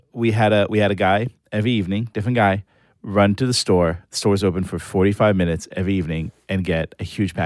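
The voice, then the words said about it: Israeli accent. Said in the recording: “are you Israeli? ... can't you hear by my Gal Gadot accent?”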